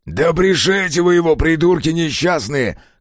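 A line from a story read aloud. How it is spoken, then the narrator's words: Shouting. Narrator (Russian): крикнул кривоногий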